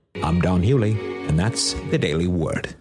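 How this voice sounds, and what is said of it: Radio announcer voice. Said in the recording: “She's got a great radio voice.”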